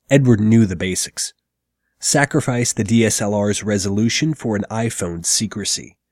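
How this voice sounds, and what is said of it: Sick, congested voice. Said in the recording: “As you may or may not be able to tell from my voice, it's been a couple weeks of croup and common cold”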